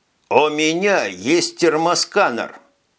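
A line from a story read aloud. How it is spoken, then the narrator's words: Loud. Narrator (Russian): громко сказал Виктор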